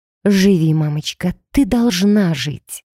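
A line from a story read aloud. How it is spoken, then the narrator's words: Breathed, barely voiced. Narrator (Russian): выдохнула я одними губами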